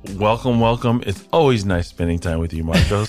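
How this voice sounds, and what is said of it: Deep radio voice. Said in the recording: “I'm the deep radio voice ... you have a good radio voice”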